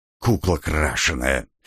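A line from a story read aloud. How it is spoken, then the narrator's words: Vampire's hiss. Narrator (Russian): послышалось рядом шипение вампирши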